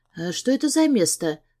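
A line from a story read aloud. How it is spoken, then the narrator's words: Quiet question. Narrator (Russian): спрашиваю я тихо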